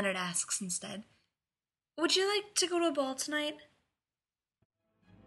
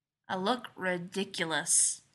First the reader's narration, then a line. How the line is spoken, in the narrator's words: he grumbles